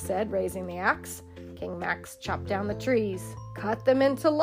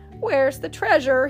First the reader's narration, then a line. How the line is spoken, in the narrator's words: croaked